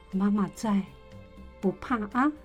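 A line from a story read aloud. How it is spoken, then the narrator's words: Mother's soft, soothing voice. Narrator (Chinese): 妈妈 轻声的说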